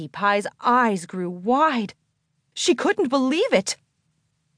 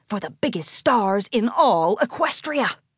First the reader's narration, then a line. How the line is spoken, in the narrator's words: He whispered